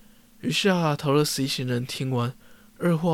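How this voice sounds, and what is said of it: Usual voice. Nothing is said of it.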